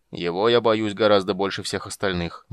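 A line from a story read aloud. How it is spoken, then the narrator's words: Grim summary, king. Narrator (Russian): мрачно резюмировал король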